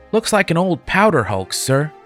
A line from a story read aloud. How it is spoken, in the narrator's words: exclaimed the lad